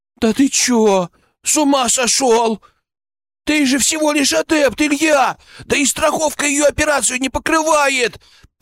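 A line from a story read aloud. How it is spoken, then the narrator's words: Babbled. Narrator (Russian): Пролепетал Величко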